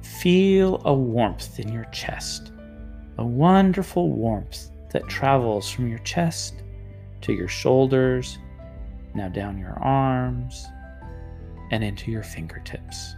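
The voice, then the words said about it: Soothing voice. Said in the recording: “in a soothing voice,”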